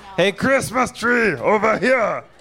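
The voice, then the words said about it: Arnold Schwarzenegger impression. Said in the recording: “doing an impression of Arnold Schwarzenegger in Running Man”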